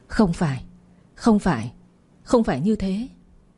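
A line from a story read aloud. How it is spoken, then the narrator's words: Dazed mumbling. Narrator (Vietnamese): miệng lẩm bẩm như một kẻ mất hồn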